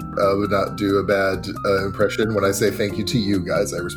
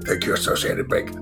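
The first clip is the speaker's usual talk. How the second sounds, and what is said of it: Poor imitation of another person's voice. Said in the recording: “my terrible Clint Eastwood impression ... That was terrible.”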